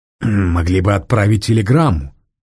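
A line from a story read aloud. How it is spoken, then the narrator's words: Grumbling. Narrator (Russian): проворчал Мизинов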